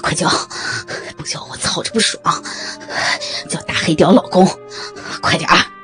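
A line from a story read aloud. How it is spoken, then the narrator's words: Panting. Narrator (Chinese): 豹哥喘息着说道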